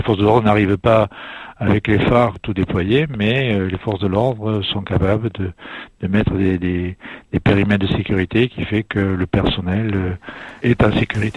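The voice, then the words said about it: Toulouse regional French accent. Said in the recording (French): “comme on l'a reconnu à votre accent, en Haute-Garonne ... De Toulouse”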